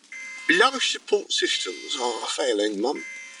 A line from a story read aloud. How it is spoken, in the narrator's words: he said quietly